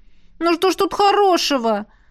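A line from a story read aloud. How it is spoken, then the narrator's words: Wailing. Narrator (Russian): взвыла я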